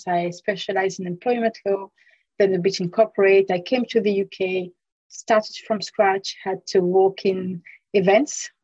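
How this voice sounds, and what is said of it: French accent. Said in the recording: “as you can hear, I have a French accent.”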